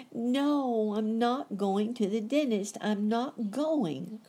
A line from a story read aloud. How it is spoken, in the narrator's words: cried Sonny